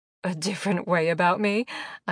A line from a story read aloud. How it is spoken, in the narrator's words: I laughed